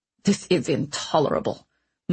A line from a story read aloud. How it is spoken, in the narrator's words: muttered Ratcliffe desperately